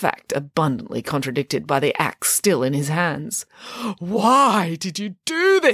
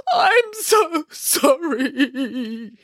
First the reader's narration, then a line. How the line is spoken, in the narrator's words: he sobbed